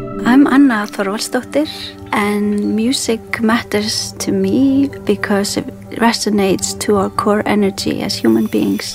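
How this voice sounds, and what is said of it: Icelandic accent in English. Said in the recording (Dutch): “dat IJslandse accent dat doorschemert in het Engels van Anna Thorvaldsdóttir”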